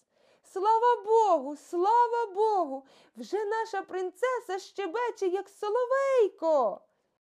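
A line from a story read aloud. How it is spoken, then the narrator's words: Loud joyful shouting. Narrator (Ukrainian): Слуги закричали на весь палац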